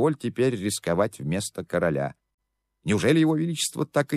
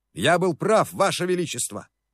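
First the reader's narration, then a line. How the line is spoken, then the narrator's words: Hoarse shout. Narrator (Russian): хрипло крикнул Новодворский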